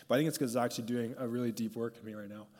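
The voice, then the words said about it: Emotional voice. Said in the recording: “I actually don't know why I'm getting emotional about this”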